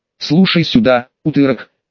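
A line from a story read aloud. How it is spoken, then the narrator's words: Quiet. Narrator (Russian): тихо произнес я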